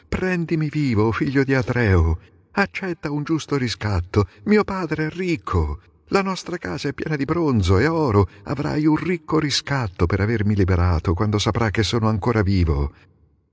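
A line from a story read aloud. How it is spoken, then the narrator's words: Desperate pleading. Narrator (Italian): supplicandolo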